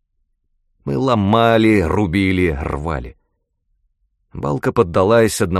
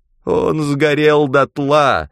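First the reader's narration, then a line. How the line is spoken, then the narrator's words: Moaning. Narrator (Russian): простонал причетник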